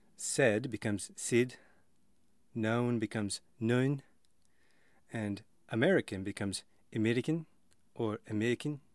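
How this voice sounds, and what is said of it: Demonstrated South African accent words. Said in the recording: “like a mixture between Australian, New Zealand, British, Dutch ... Here are some fun words to help perhaps get you into the dialect a little more. First of all, the name of a person from South Africa”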